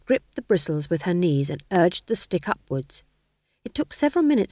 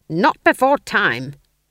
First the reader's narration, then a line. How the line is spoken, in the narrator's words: she snapped